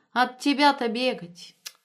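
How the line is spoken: Laughing. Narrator (Russian): Светка рассмеялась

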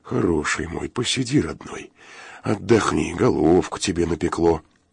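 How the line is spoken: Soothing undertone. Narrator (Russian): приговаривая вполголоса

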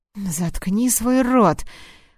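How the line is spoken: Fox hissing through teeth. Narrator (Russian): прошипел лис сквозь зубы

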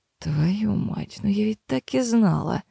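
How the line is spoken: Quiet mutter. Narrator (Russian): Тихо пробормотала Мэйр

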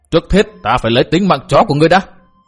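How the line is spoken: Loud shout. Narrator (Vietnamese): Tên cái bang đệ tử thọ kiếm thương liền lớn tiếng quát

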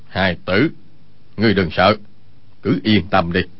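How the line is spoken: Lowered voice. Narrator (Vietnamese): hạ giọng nói

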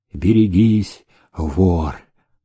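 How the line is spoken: Weak, threatening whisper. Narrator (Russian): Ослабевшим голосом он прошептал, угрожая

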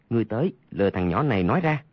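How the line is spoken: Lowered voice. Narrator (Vietnamese): hạ giọng nói

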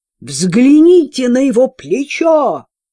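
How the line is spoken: Shouted in normal voice. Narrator (Russian): закричала самозванка Мария обычным голосом Джульетты

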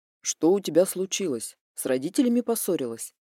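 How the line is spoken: Sudden serious question. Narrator (Russian): Вдруг спросил он абсолютно серьезным голосом

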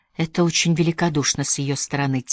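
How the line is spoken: Quiet. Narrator (Russian): тихо сказала Мэри

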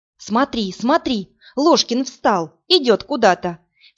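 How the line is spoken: Sharp cry. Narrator (Russian): вскрикнула Марина

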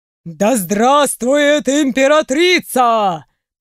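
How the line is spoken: Thundering crowd chorus. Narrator (Russian): Прогремели ряды собравшихся

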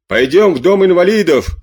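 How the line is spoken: Old soldiers shouting. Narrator (Russian): кричало несколько старых солдат

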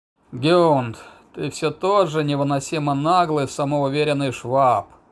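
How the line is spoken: Heavy sigh, in German. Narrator (Russian): Тяжко вздохнув, заговорил он по-немецки

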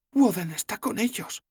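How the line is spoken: Whispered. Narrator (Spanish): susurró Sefawin

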